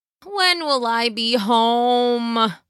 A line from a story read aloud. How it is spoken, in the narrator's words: Peter said out loud again, noticing how pitiful his voice sounded as he whined into the air to no one